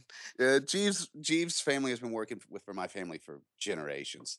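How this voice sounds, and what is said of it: Fake British accent. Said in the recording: “nice nice fake uh, British accent too”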